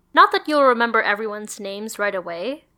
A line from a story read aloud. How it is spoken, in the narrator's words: said Lisa brightly